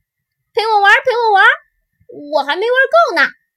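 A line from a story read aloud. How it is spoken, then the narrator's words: Calling out. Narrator (Chinese): 妈妈就叫了起来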